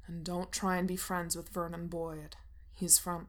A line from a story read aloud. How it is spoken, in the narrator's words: he says sternly, like he's in charge of her or something